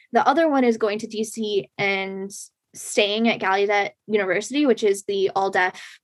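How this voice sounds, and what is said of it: Boston accent. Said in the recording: “the Boston accent though”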